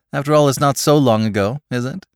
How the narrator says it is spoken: she laughed

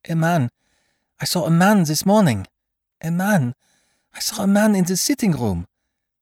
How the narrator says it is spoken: Choking, quite out of breath, Césarine stuttered

